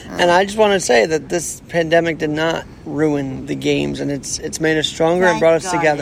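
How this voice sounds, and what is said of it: Sore, strained voice. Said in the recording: “my voice is a bit sore right now”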